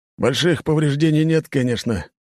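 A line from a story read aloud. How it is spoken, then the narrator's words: Sighing. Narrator (Russian): капитан вздохнул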